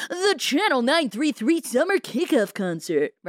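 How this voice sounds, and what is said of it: Radio announcer voice. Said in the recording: “That was a great radio voice. ... it totally sounded like that.”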